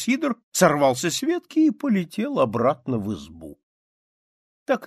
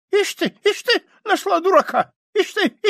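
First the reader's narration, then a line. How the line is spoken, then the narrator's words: Squeaky voice. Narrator (Russian): Сидор пропищал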